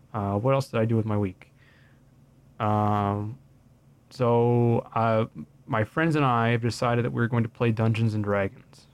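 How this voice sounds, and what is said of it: Hoarse, losing voice. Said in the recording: “hopefully next time I'm not losing my voice and I'm coughing near the microphone constantly”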